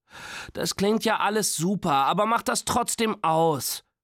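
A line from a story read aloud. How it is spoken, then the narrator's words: Groaning. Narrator (German): stöhnte Nora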